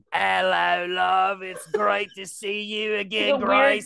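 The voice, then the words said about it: Weird put-on Cockney accent. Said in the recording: “Weird Cockney accent.”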